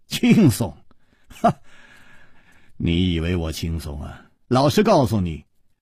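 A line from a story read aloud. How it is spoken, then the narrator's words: Wry, bitter laugh. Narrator (Chinese): 楚留香苦笑着说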